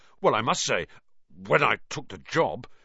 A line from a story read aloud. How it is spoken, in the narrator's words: Lockhart muttered